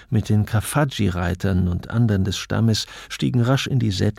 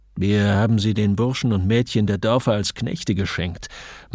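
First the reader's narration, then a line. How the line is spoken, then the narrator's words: Sneering. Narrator (German): meinte Saal mit einem höhnischen Grinsen seines dünnlippigen Mundes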